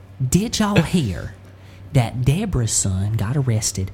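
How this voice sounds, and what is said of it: Put-on Southern woman accent. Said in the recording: “Individual Southern like women... We're all four Southern women gossiping at church... I feel like mine's pretty standard.”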